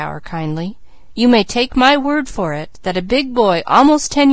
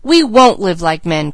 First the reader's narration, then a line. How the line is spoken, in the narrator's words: cried both boys